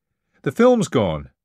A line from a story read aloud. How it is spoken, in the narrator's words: barked